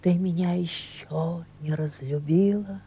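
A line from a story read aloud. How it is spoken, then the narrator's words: Quiet question. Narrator (Russian): тихо спрашивал он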